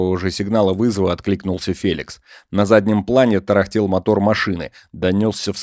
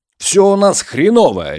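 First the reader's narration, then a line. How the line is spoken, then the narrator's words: Barking. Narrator (Russian): рявкнул Роман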